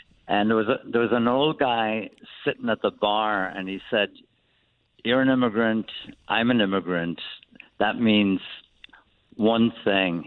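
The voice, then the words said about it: Irish accent. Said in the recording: “you have the accent ... you're Irish”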